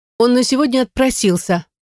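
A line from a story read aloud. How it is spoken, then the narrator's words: Brisk, even tone. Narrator (Russian): бодро рапортует Рита, не меняя тональности голоса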